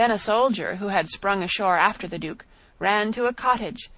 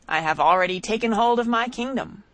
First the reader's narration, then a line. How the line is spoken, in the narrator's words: he cried